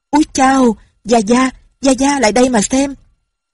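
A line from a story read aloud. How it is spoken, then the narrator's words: Sudden cry. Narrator (Vietnamese): Bỗng tiếng của Lâm Bình Chi la lên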